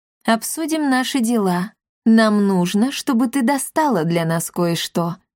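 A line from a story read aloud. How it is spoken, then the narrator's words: Purring talking cat. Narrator (Russian): промурлыкал предводитель братства говорящих котов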